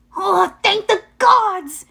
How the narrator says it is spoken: he yelped

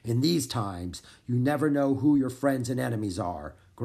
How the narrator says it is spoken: growled Gaston

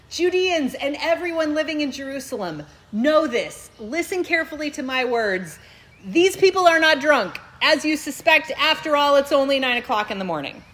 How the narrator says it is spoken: He raised his voice and declared

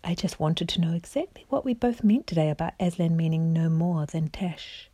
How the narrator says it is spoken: said the cat in a silky voice of his

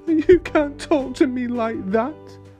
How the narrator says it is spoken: sobbed the king

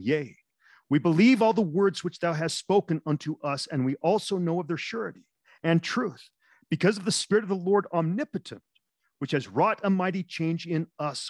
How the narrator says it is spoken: they all cried with one voice, saying

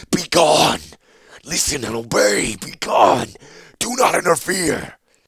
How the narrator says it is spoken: The demon's anger, roaring through Zancha's mind

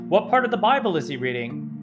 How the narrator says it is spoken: One guy yelled

